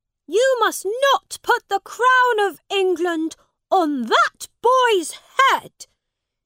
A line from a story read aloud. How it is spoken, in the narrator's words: shouted